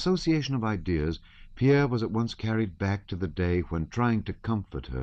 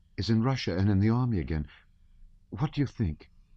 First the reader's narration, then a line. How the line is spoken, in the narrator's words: she whispered the name hastily